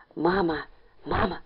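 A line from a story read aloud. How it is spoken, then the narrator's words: Whispered. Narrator (Russian): зашептал Ленька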